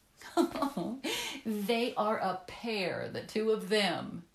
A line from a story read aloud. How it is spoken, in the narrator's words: said Olive, laughing